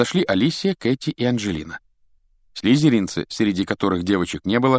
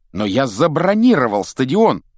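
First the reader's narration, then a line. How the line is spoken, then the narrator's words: Shout. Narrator (Russian): крикнул Вуд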